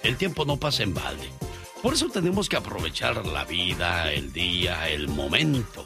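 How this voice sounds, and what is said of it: Intense radio announcer voice. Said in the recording (Spanish): “¿Por qué estoy hablando así tú? ¿Parezco ... locutor? ... pero qué intenso ya ... voz de locutor!”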